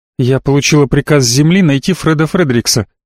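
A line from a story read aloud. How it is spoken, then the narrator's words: Plain. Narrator (Russian): сказала она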